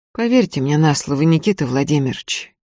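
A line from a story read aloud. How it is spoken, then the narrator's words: Priest's quiet voice. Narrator (Russian): тихо сказал священник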